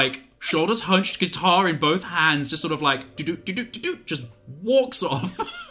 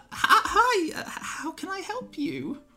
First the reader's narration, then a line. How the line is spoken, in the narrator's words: Redclaw chirps a little and goes